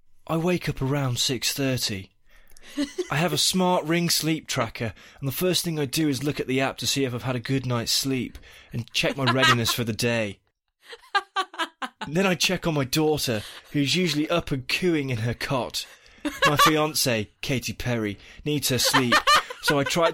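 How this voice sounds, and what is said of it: Dramatic reading in character voice. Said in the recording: “in my Will Turner voice ... Dramatic reading”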